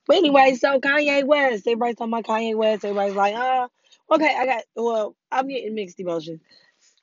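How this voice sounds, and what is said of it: Weak, strained recovering voice. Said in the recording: “The other day, I did not have a voice. I'm still struggling here to get my voice back.”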